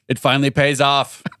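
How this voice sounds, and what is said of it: Weird imitation of a president's voice. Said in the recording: “Why did you just do like a weird president voice?”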